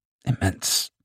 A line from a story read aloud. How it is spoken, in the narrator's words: Then he muttered under his breath, almost an afterthought